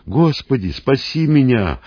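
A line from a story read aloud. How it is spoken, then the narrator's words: Desperate shout. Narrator (Russian): отчаянно закричал Симон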